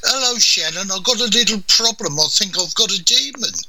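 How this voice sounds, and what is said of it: West Midlands English accent. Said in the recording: “if you live in the West Midlands, sort of Wolverhampton in England, forgive me, but you'll talk like this ... that's how the accent is”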